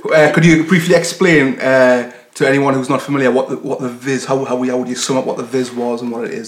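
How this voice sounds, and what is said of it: Strong non-American accent. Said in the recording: “our American listeners, if they haven't already been put off by my fucking accent”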